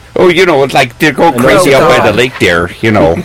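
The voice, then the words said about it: Fargo, North Dakota accent. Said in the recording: “he's from Fargo ... You gotta do the accent.”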